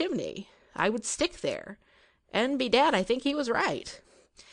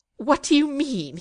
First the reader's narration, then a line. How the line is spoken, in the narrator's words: spluttered